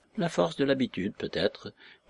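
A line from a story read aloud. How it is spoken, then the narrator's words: Murmured. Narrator (French): murmura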